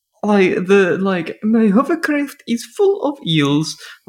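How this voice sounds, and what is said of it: Put-on vague European henchman accent. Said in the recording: “All have the hello, umi henchmen accent. ... they all sound like this.”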